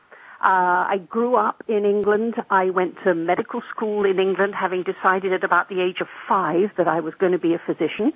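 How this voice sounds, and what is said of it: English accent, not North American. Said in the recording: “from my accent, you can tell that originally I don't come from North America. I was born ... in England”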